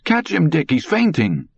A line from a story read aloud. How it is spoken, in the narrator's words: Far away, echoing, he heard his mother cry sharply